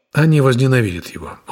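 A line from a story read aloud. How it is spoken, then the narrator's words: Weary. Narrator (Russian): устало сказал я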